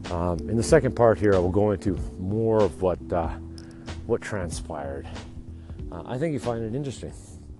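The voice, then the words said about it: Tired, gravelly, wrecked voice. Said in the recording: “I'm tired today. My voice is wrecked. You can probably tell. It's pretty gravelly.”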